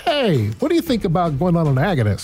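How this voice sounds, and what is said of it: Impersonating a movement disorder specialist. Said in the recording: “my impersonation of an MDS”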